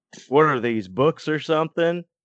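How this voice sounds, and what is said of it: Imitates another person's voice. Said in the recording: “my impression of three out of the four people who walk by at my table at conventions”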